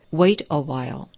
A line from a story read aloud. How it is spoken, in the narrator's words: replied the master gently